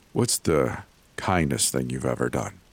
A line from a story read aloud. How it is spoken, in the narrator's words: He asked again, gently